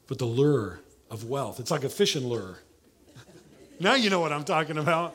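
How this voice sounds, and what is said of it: Southern American accent. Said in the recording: “I know I got a southern accent ... I'm from Oklahoma.”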